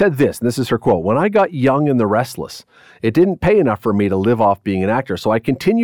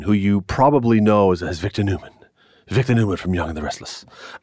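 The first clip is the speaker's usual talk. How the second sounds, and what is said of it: Poor imitation of another person's voice. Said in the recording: “my very bad Victor Newman impression”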